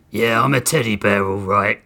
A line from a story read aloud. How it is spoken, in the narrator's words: Grissom said through gritted teeth